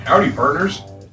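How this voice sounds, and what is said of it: Put-on Texan drawl. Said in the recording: “his best Texas impression. ... I thought that was pretty spot on. I thought it was identical to how everyone here in Texas speaks.”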